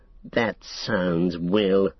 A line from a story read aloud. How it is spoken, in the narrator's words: sneered Saruman